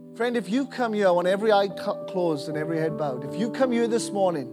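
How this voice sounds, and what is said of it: Welsh accent with some twang. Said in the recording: “crazy Welshman with kind of a Welsh accent, but there's some twang in there as well”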